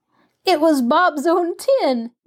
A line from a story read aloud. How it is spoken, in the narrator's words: giggled delighted Mabel